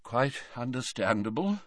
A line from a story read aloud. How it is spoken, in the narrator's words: murmured Dumbledore